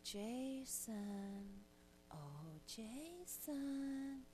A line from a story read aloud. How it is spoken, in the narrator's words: sweetly whispered